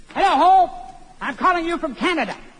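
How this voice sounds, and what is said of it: Shouting very loudly. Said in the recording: “Why are you talking so loud?”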